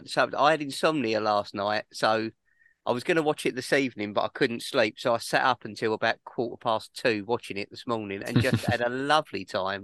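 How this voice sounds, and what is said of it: Voice with a cold. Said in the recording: “I am fighting off a cold at the moment, as you can probably hear in my voice.”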